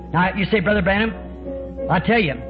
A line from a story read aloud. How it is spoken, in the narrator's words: I shouted one time